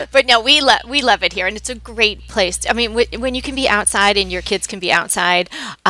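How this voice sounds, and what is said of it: New York accent. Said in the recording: “from New York ... Such a good accent.”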